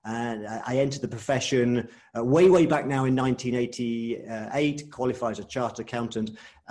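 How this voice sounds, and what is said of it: British English accent. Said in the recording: “an accountant, a chartered accountant from the UK, which you can probably tell by the accent.”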